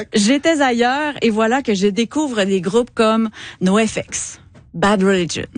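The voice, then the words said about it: Quebec French accent. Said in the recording (French): “mon accent de Québec”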